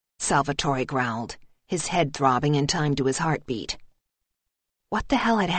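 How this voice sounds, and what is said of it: Usual voice. Nothing is said of it.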